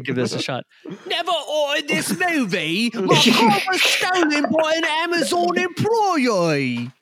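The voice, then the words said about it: Put-on accent. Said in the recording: “You don't think he'd have an accent? ... That sounds way better. ... That's really good.”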